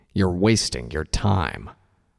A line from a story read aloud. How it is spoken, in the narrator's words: Tirado growled